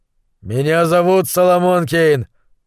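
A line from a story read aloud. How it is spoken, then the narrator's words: Growled in foreign tongue. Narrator (Russian): прорычал пуританин, отвечая шейху на его родном языке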